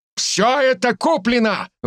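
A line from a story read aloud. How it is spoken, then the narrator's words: Shouted. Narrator (Russian): выкрикнул староста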